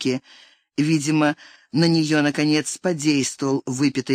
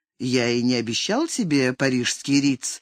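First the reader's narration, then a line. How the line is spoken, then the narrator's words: Plain. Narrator (Russian): ответил Алекс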